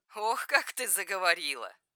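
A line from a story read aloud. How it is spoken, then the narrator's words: Laughing. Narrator (Russian): Рассмеялась она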